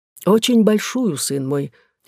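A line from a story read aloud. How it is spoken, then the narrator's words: Unexpectedly soft old woman. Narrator (Russian): отвечала старуха таким мягким тоном, какого паж даже не ожидал от нее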